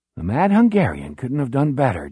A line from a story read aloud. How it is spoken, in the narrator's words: Jack murmurs